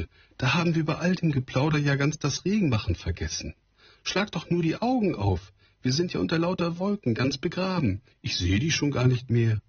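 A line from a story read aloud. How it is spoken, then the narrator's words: Sudden call. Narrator (German): rief plötzlich die Trude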